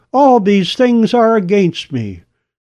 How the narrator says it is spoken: In desperation, cried

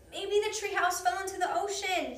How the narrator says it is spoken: shouted Jack

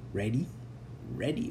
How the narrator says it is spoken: whispered Elmer, his heart pounding so hard he was sure it must echo through the cave

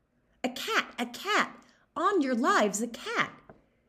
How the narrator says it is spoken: she called out

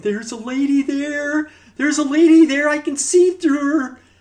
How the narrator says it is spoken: he screamed

